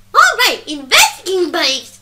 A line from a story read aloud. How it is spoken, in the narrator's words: she said, exclaiming